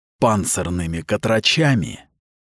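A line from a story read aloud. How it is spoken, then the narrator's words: Hissing. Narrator (Russian): прошипел он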